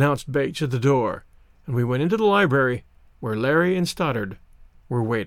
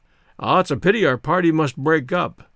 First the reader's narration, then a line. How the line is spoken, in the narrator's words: exclaimed my grandfather